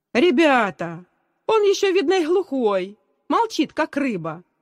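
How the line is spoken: Cheerful shout. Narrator (Russian): весело крикнул Давид, один из лидеров класса

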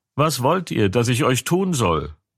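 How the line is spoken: Called out. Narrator (German): rief sie und sprach

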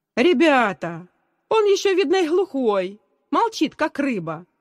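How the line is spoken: Cheerful shout. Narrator (Russian): весело крикнул Давид, один из лидеров класса

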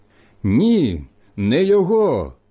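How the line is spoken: Shouting again. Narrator (Ukrainian): знову закричали ті

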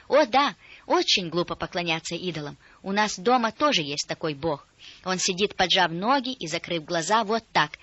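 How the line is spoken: Girl exclaiming. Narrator (Russian): девочка воскликнула

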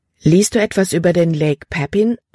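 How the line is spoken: Plain. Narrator (German): fragte sie

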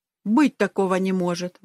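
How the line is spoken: Exclaimed. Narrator (Russian): воскликнул я

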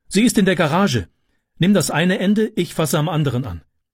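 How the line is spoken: Called out. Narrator (German): rief sie

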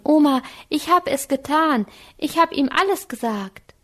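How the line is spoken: Calling out. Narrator (German): rief Anke

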